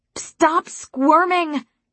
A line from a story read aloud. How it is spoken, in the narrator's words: I shouted close to his ear, over the sound of rushing air